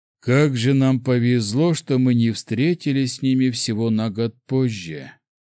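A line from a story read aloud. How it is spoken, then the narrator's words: Chief's son sighing. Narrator (Russian): вздохнул сын вождя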